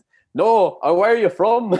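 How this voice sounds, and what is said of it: Bad put-on Scottish accent. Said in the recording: “in a really strong Scottish accent ... the terrible Scottish accent I just did”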